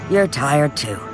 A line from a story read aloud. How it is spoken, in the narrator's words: he murmured, but he smiled